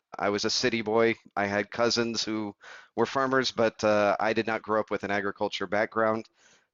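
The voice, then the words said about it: American accent. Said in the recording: “As you can probably tell from the accent, I'm American.”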